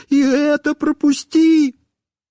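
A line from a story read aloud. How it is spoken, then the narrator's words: Yelling, pleading. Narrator (Russian): я снова начинал вопить и умолять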